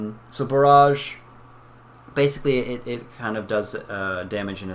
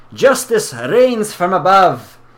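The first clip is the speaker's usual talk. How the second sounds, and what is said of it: Put-on Russian accent. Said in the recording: “Russian. ... All my accents just turn into Russian or Irish.”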